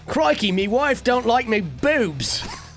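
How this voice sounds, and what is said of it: Put-on Australian crocodile hunter accent. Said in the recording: “he is Australian. ... you kind of turn him into the crocodile hunter right there. ... that's the only accent I know how to do with Australia”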